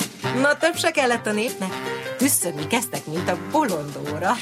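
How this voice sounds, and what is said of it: Usual voice. Nothing is said of it.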